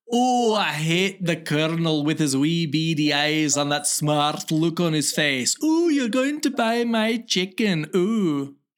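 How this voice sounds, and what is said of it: Put-on Scottish accent. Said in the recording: “Give me your Scottish accent. Murder it. ... That's a character from the movie Sorry, Marriage and Axe Murderer. ... And I apologize to all Scots.”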